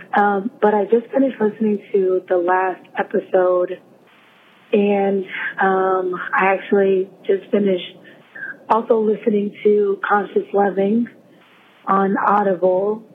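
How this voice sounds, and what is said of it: Very hoarse voice. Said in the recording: “apologize for my voice. I am so hoarse.”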